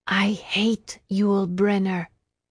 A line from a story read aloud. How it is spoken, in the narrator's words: she whispered